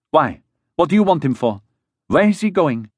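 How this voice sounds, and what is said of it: Frightened voice. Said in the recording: “in a frightened voice”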